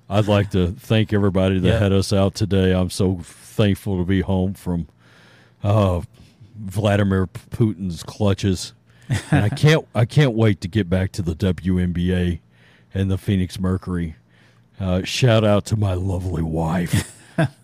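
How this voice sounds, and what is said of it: Deep-voiced impression of Brittney Griner. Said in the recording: “Oh, deep voice Brittany.”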